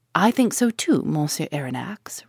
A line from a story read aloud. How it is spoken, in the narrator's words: replied